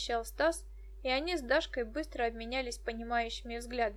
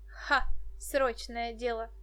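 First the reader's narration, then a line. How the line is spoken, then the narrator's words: Bursting into laughter. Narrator (Russian): Дашка вдруг расхохоталась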